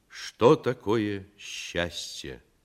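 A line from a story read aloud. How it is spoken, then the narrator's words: Solemn question. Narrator (Russian): торжественно спросил комиссар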